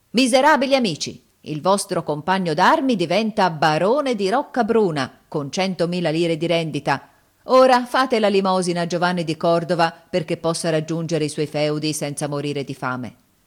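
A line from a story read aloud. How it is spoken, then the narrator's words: Shouted. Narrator (Italian): gridò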